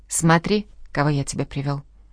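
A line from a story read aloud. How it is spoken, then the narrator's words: Suddenly affectionate tone. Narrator (Russian): вдруг неожиданно ласковым тоном произнес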